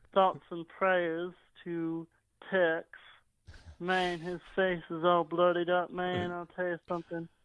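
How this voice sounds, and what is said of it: Put-on fake voice. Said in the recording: “it's a fake voice”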